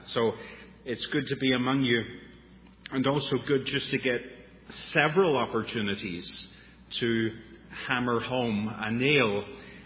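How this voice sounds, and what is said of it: Irish accent. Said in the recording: “some strange Irishman with a funny accent”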